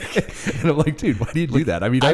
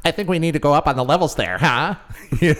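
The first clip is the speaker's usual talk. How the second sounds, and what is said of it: Mocking childish imitation voice. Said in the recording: “making fun of each other's voices ... he sounds like a five-year-old.”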